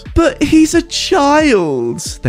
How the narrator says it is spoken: they squealed

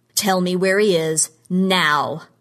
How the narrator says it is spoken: he yelled at Dale Sumner

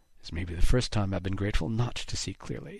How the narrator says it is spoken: Haddox muttered

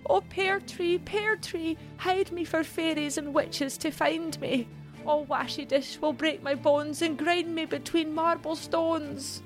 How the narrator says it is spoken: Mary cried

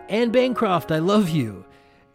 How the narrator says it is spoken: he yells out

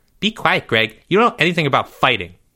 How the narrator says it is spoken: snapped

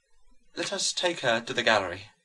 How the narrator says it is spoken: murmured the mother of this son who was thus dead and alive

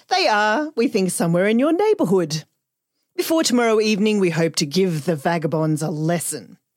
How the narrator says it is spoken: concluded the sergeant cheerfully

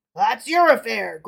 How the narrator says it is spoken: growled the bandit

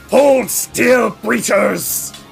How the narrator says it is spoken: grave knight, who snarls

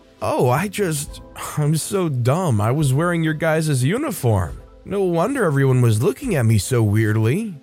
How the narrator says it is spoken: Me, starting to laugh, said

